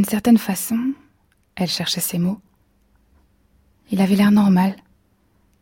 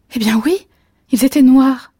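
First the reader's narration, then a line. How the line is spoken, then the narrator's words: Exclaiming. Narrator (French): s'exclama-t-elle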